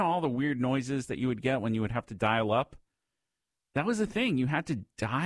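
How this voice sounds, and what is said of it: Usual voice. Nothing is said of it.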